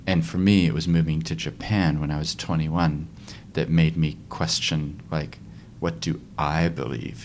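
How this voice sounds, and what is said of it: American accent. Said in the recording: “I have an accent, but I actually grew up here, actually in Christchurch ... my parents are from America”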